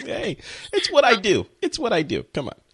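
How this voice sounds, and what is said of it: Put-on New York accent. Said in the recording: “That was my New York accent.”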